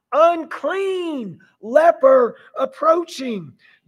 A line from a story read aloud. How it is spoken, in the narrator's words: they were required by law to yell out